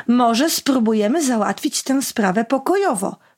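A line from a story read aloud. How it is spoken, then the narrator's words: Plain. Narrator (Polish): powiedział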